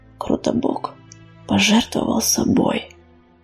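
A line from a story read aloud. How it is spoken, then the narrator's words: Whisper. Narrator (Russian): прошептал он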